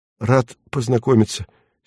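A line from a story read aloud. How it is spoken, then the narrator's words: Awkward mumble. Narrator (Russian): стесненно промямлил кожник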